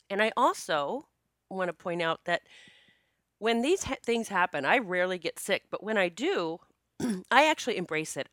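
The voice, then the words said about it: Congested voice from a cold. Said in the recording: “I am recording this podcast with a head cold. Well, actually, a cold that has traveled to my chest a little bit. ... My voice sounds a little different. And I may cough a few times, but I actually sound worse than I feel.”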